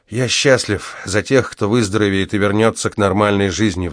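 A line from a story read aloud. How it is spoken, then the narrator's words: Sighed. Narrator (Russian): вздохнул я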